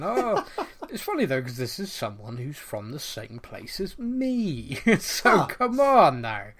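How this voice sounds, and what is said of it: Bristolian English accent. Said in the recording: “I forgot how just farmer you sound ... I'm not Bristolian enough for them, or I don't know, or I sound more Bristolian when I'm on the podcast”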